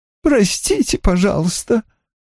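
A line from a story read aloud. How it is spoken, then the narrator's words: Sobbing. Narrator (Russian): всхлипнула она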